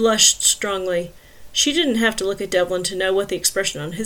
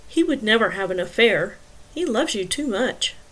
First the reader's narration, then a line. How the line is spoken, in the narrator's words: Devlin said softly